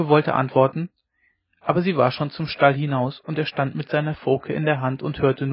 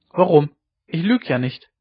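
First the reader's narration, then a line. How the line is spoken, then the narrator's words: Calling out. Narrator (German): rief sie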